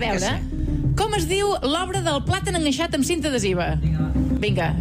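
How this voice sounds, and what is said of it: Usual voice. Nothing is said of it.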